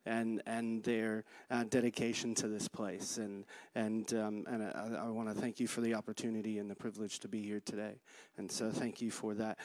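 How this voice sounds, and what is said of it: American accent. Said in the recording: “I talk with a funny accent ... I'm from the United States ... they think I sound funny”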